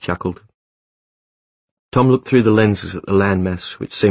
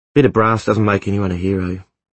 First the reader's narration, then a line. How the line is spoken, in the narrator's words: Tom said